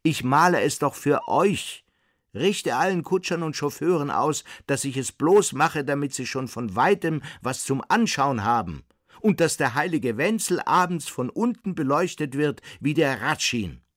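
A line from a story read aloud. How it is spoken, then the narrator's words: Man calling after someone. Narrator (German): rief ihm der Mann in der Reithose nach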